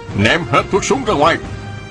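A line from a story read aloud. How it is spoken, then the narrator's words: Shout from above. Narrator (Vietnamese): Trên vách núi có người quát lên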